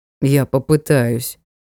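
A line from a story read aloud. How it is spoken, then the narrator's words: Gloomy. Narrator (Russian): мрачно сказал Аргариут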